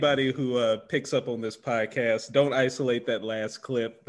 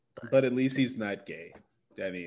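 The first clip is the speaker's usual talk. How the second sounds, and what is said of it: Sarcastic delivery. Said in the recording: “That was me being sarcastic. ... Sarcasm, folks.”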